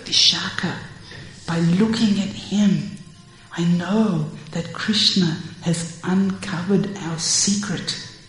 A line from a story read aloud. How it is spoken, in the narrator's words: whispers to Vishakha